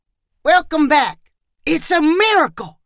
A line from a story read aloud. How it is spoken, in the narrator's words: shouted someone else